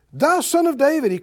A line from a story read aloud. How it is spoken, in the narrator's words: he cried the more a great deal